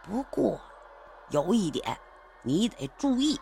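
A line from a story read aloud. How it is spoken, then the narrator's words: Quiet, low voice. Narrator (Chinese): 陈伟又小声的说道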